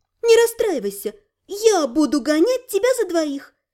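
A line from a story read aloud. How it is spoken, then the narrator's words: Gentle comforting. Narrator (Russian): Ласково утешила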